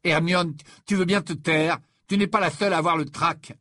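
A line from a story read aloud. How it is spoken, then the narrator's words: Barked. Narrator (French): aboya Ron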